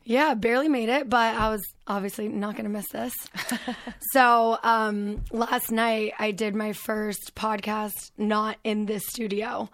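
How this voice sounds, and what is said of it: Hoarse, strained, fading voice. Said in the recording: “I left my voice in Las Vegas ... my voice is going more and more ... it sounds all right. It could sound worse. It's a little sexy. ... I can't sing for shit right now”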